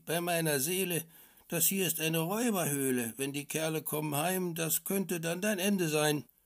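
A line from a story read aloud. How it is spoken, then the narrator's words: Called out. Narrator (German): rief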